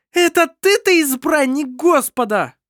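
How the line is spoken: Mocking exclamation. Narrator (Russian): Издевательски воскликнула Эбба

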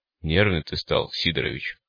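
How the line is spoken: Booming drone. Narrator (Russian): прогудел голос второго

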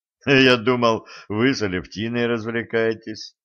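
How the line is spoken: Laughing. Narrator (Russian): рассмеялся Виктор Аркадьевич

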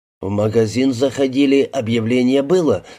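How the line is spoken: Plain. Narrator (Russian): спросил Димку Сергей

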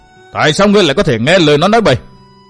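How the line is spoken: Anxious, angry loud scolding. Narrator (Vietnamese): Bách Thắng vừa nóng ruột vừa giận dữ mắng lớn

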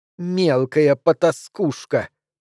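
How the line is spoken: Hissing. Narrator (Russian): прошипела

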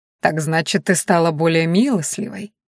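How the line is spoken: Purring. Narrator (Russian): промурлыкал он

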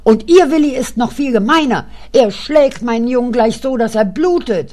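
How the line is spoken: Shouted. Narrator (German): schrie die Frau Eckert

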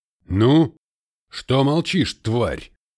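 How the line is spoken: Harsh bark. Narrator (Russian): рявкнул Ахиллес

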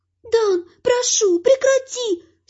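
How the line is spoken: Whining. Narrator (Russian): Скулит эльф

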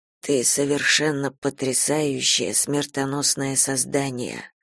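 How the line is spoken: Whisper. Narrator (Russian): прошептал он

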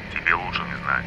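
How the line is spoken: Grumbled. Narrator (Russian): буркнул Порфирьев

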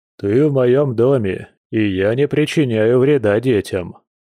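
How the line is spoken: Deep bass voice. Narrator (Russian): пробасил медведь

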